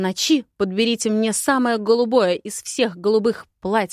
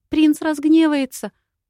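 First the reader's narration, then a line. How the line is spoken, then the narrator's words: Squeak. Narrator (Russian): пискнула Лира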